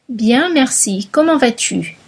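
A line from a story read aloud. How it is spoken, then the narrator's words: Plain. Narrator (French): dit Robert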